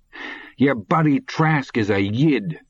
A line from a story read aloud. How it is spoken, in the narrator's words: heard himself yelling into his father's face